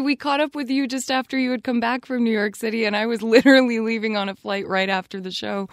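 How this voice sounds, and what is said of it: Hoarse, lowered failing voice. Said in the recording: “losing my voice. It's like dropped an octave.”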